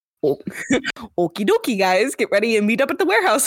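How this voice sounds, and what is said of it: Put-on Midwestern Chicago accent. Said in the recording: “my Midwestern Chicago water”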